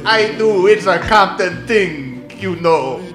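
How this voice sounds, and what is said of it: Fake Jamaican accent. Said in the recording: “fake Jamaican accent ... he does not need to do a fake Jamaican accent”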